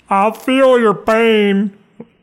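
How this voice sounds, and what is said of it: Weak Bill Clinton impression. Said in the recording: “Like Bill Clinton would say ... That's not a very good imitation, is it? No, I'm not too good at imitations.”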